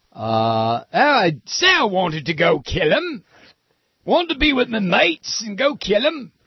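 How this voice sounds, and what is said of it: Poor put-on British accent. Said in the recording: “my lousy British accent”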